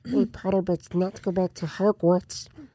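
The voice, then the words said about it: Dobby character impression. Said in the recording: “my Dobby impression”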